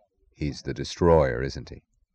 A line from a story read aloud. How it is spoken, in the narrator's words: he said softly